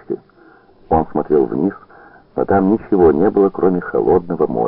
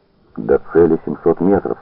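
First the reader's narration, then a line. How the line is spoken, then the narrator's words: Plain. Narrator (Russian): сказал Веселагу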